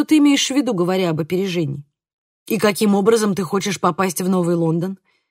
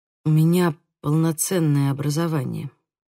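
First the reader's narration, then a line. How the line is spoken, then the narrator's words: Whisper. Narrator (Russian): прошептал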